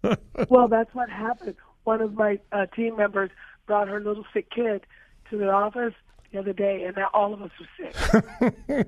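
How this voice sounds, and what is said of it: Hoarse, strained voice. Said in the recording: “I lost my voice.”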